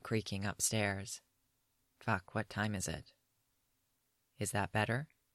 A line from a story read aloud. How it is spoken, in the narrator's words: Yaskir asks softly